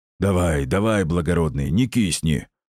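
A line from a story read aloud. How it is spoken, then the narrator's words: Deep bass voice. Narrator (Russian): пробасила над ухом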